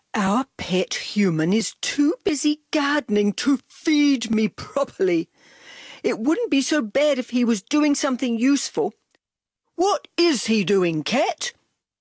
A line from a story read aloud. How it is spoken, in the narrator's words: Dog moaned